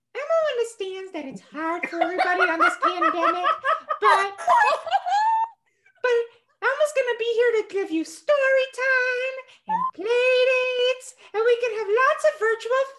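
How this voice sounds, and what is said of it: Elmo character voice. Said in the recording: “I broke out my Elmo impression ... we were doing the Sesame Street characters ... Can you give us one little Elmo impression?”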